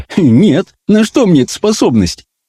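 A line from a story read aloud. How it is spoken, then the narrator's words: Giggling. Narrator (Russian): Хрюмин хихикнул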